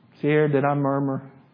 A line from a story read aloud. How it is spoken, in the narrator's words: I murmured